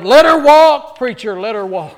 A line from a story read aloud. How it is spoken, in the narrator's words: someone in the back yelled